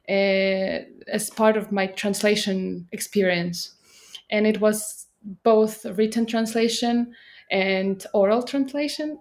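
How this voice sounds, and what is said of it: British-leaning non-native English accent. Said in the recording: “your accent is more British ... my accent is more connected to the oral translation ... fluid accent”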